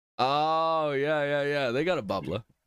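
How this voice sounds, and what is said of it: Put-on South Boston accent. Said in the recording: “If I say it in Massachusetts-y, it's bubbla ... That's like your South Boston accent.”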